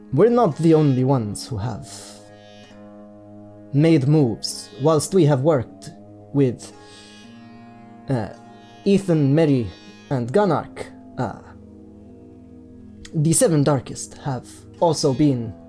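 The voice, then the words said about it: Put-on fantasy character accent. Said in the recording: “this is the Bemenemat accent again. I, it just infects everything.”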